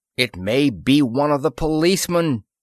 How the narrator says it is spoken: The controller yelled

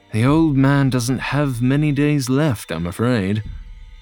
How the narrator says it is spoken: John sighed and admitted

